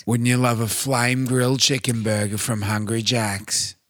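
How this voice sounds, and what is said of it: Imitates another person's voice. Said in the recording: “my Samuel Johnson impression ... he had a unique voice”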